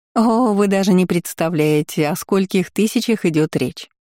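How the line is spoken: Laughing. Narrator (Russian): рассмеялась бабочка

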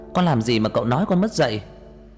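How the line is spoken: Enraged shout. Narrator (Vietnamese): Tôi điên lên, hét lên

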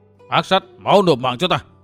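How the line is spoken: Thunderous old man's roar. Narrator (Vietnamese): Tam Ma Ngụy Vân cũng vừa đến nơi, lão thét to như sớm nổ

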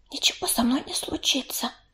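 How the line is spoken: Whisper. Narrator (Russian): прошептала она

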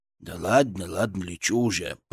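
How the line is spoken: Grumbling. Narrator (Russian): проворчал он

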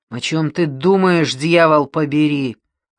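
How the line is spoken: Father's growl. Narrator (Russian): рычал отец

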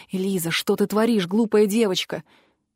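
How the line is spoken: Whisper close to ear. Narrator (Russian): прошептал в самое ухо

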